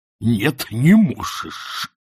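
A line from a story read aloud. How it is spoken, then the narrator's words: Hissed. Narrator (Russian): прошипел он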